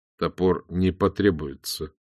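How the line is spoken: Weary. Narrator (Russian): устало промолвил он

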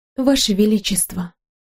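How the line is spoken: Quiet. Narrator (Russian): тихо сказала я

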